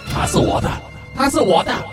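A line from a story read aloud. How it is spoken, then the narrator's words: Unfamiliar voice shouting. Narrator (Chinese): 一把陌生的声音一直在喊着说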